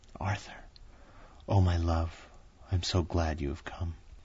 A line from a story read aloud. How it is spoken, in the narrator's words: seeing him she whispered softly